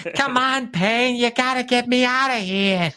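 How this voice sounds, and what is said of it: Imitates a video game character's voice. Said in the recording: “That's a good impression.”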